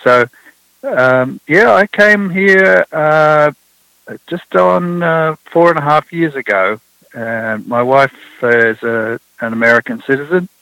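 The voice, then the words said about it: Non-American accent. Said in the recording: “I always say I don't really have an accent, and everyone else does, but there you are. It seems that I have one too.”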